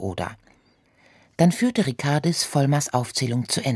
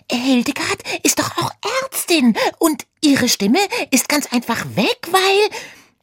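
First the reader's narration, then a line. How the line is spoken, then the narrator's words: Squeal. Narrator (German): quiekte Oda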